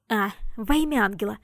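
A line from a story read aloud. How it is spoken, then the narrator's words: Exclamation. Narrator (Russian): воскликнул Габриэль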